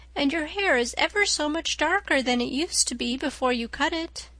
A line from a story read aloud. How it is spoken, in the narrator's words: said Diana earnestly